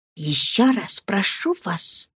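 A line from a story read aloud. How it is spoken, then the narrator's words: Heartfelt whisper. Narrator (Russian): шепнула она с чувством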